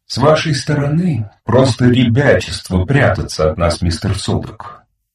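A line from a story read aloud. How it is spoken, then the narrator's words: Singsong melodic voice. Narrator (Russian): вставил он своим певучим, мелодичным голосом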